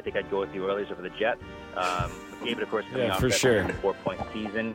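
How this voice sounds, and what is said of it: Canadian accent. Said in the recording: “offer subtitles for this Canadian ... accent?”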